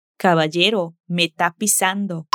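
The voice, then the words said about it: Spanish accent dropping final s sounds. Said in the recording (Spanish): “Con su acento, en vez de me estás pisando, ... dice me está pisando ... O como lo dijo ... con su acento sin pronunciar”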